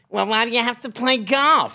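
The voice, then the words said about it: Imitates another person's voice. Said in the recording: “What a good impression”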